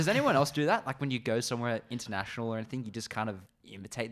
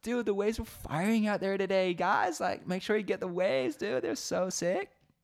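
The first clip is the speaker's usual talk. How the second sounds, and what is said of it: Bad put-on Californian surfer accent. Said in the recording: “putting on like a bit of a Cali Hawaiian accent ... It was the worst accent I've ever done”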